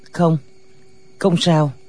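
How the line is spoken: Trembling reply. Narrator (Vietnamese): Lòng lệnh Hồ Xung xe lại, run run đáp

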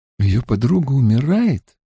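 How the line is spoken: Timid. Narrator (Russian): Авиенда говорит так робко

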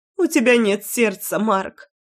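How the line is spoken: Mother sobbing. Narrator (Russian): всхлипывала мама

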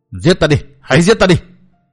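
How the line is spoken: Frantic roar. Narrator (Vietnamese): Mặt mày Phỉ Nguyên Hoàng tái mét không còn chút máu, y gầm giống như điên như cuồng nói

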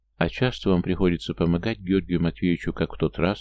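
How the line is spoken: Quiet question. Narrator (Russian): спросила негромко Дуня

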